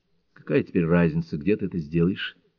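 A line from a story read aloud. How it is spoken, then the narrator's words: Sighing. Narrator (Russian): вздохнула Джейн Шелби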